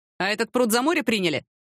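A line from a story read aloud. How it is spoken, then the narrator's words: Laughing. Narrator (Russian): рассмеялся он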